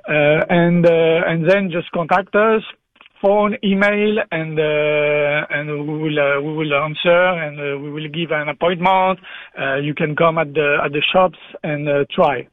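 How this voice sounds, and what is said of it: French accent in English. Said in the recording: “sorry for my accent ... On est au Québec. We are very used to talking to francophones”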